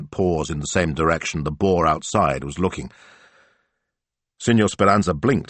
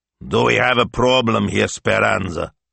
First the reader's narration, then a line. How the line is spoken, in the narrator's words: he growled